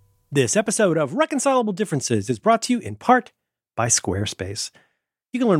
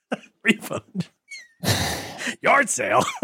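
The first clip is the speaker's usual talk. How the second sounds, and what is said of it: Buzz Lightyear cartoon character voice. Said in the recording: “That sounds like my Buzz Lightyear impersonation.”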